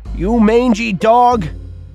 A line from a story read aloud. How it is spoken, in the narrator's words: Cole shouted into the night